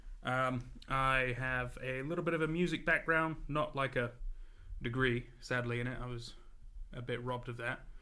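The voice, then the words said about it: Mixed English-American accent. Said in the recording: “I was born in England, but raised in America. So, I apologize if I've got a funky accent.”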